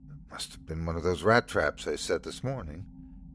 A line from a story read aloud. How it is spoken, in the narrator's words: she whispered to the dog